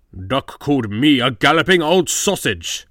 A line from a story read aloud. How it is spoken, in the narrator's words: spluttered Gordon